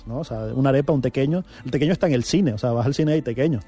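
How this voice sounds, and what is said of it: Venezuelan Spanish accent. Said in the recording (Spanish): “la gente ya reconoce el acento venezolano a primeras. Antes te preguntaban, ¿eres canario?”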